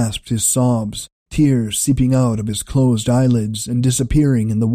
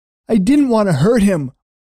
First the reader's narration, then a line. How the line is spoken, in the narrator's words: Ender cried